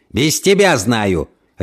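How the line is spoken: Irritated barking. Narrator (Russian): рявкнул Кент, как рявкнул бы на его месте мужчина, которому помогают завязать галстук

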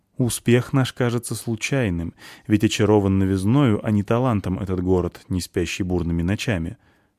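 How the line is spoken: Plain. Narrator (Russian): сказал друг Шензи

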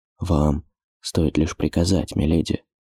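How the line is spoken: Whispered. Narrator (Russian): шепотом сказал

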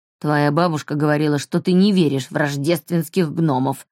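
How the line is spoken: Grumbling. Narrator (Russian): проворчал Альф

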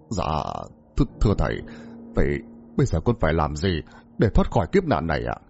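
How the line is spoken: Stammering. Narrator (Vietnamese): ông trưởng lắp bắp

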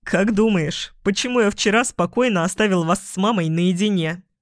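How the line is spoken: Giggling big man. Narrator (Russian): Хихикал здоровяк

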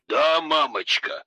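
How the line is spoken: Chuckling. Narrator (Russian): хохотнул все тот же Сергей

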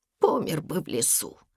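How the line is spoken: Whisper. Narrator (Russian): шепнул Еся

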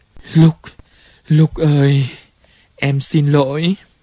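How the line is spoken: Moaning. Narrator (Vietnamese): Cô rên lên

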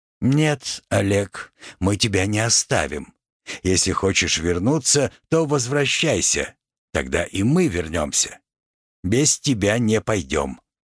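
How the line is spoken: Calm reply after pause. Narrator (Russian): Эрон после короткой паузы спокойно ответил

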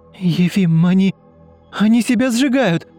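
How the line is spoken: Shouting. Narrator (Russian): крикнула Ульяна

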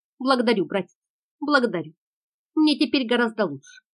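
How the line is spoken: Firmer voice. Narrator (Russian): сказала она более твердым голосом

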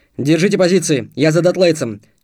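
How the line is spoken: Shout. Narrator (Russian): крикнул Толик

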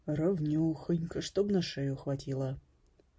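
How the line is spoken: Muttering craftsman. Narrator (Russian): бормотал мастер

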